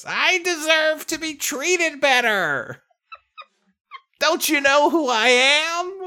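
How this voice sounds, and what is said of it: Stereotypical drunk woman voice. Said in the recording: “This is just a stereotypical drunk lady, I guess... You sound like when Andrew Dice Clay does an impression of a woman.”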